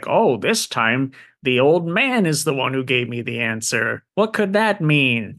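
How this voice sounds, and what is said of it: Gremlin-like cartoon character voice. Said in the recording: “your Jockin voice, pretty solid. ... It's reminiscent of your gremlin voice.”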